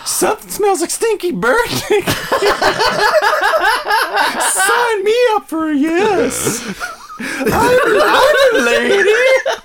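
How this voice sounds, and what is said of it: Put-on horny bird girl voice. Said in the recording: “you're doing your horny bird girl voice”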